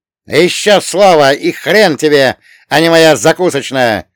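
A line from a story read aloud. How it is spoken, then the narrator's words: Barked. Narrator (Russian): рявкнул Гепетто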